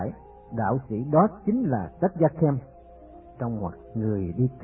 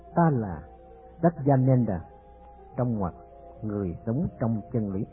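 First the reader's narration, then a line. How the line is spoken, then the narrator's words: Old sage, smiling, soft. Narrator (Vietnamese): Vị đạo sĩ mỉm cười nói khẽ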